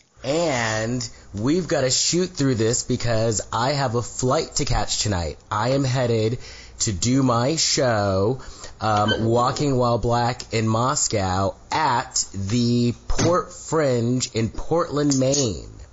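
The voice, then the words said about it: Hoarse, cold-affected voice. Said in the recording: “my voice is a little different. ... I actually was battling a summer cold, so I lost my voice over the weekend. ... You're a little hoarse. ... I sound like Froggy from The Little Rascals.”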